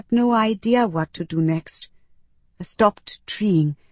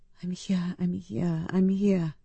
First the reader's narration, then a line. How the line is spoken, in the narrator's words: I whispered, because I was, and there was no way out